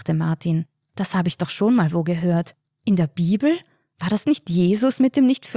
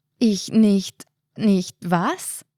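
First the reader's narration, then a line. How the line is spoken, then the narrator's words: Stammering. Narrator (German): stammelte Martin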